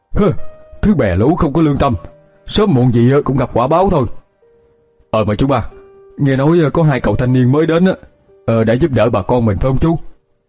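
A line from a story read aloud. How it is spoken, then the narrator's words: Harsh stressed old man. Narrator (Vietnamese): Ông gằn giọng nói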